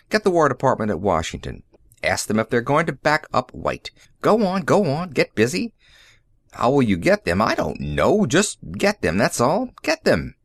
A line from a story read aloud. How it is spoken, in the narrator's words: snapped